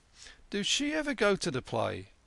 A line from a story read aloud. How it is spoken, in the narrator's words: Yankele ventured timidly